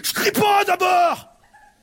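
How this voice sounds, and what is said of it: Angry shouting. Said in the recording (French): “elle hurlait ... Pourquoi tu cries?”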